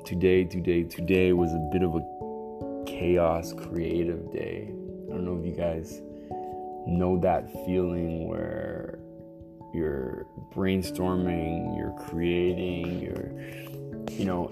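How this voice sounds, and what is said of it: Partially lost, extra deep voice. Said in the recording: “I'm getting my voice back... I lost my voice, and not fully lost my voice,... I love the sound of my voice partially lost. It's extra deep.”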